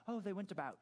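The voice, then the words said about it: Put-on British accent. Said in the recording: “You put on your British accent.”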